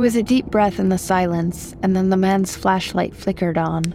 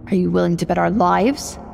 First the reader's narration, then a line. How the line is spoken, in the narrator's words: spat her mother